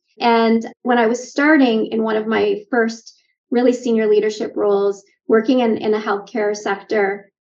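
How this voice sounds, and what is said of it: Canadian accent. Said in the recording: “Canadian, if you hear it in my accent”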